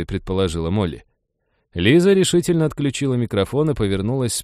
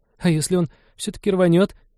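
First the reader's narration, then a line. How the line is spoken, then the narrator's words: Frightened squeak. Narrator (Russian): пискнула Молли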